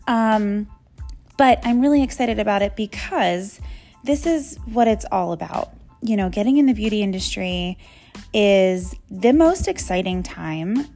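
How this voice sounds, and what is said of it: Hoarse, strained voice. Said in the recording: “excuse my voice. I am losing it.”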